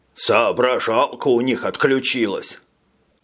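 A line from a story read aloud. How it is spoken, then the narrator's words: Softer grumbling captain. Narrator (Russian): проворчал капитан Лефлер, но уже без прежнего напора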